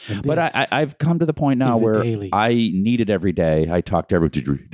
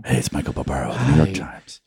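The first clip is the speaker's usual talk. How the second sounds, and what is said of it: Whispering imitation of another person's voice. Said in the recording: “he's always whispering.”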